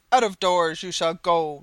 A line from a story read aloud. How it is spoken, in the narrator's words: roared the old man